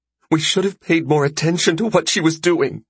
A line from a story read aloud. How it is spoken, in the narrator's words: Barbara sobbed into his arm